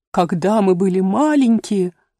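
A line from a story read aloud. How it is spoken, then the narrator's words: Calmer, faint occasional sobs. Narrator (Russian): наконец продолжил черепаха телячьи ножки, успокоившись и всхлипывая время от времени, но гораздо слабее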